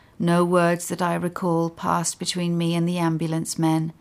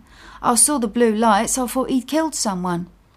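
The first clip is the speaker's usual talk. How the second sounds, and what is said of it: Cockney accent. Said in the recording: “he said in a Cockney accent.”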